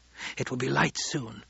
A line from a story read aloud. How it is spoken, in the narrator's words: whispered